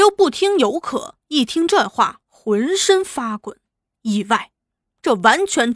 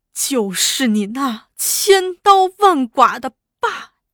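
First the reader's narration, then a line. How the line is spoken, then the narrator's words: Crying through gritted teeth. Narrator (Chinese): 玉算咬牙切齿的哭道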